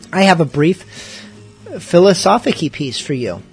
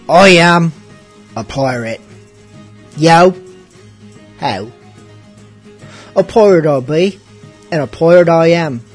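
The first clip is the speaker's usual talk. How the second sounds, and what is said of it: Pirate character voice. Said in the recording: “should I do this in pirate voice?”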